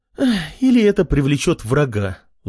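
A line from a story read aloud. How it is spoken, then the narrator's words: Sigh. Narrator (Russian): вздохнула Лена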